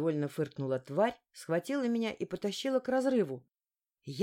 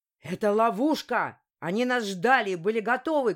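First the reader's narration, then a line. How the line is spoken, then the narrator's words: Shout. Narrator (Russian): крикнул Фер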